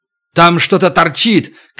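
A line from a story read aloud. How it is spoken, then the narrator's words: Shout. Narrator (Russian): крикнул Туран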